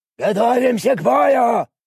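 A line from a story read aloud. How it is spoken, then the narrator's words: Shouted. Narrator (Russian): крикнул Шрам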